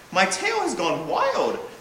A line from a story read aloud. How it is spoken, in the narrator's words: exclaimed Prewit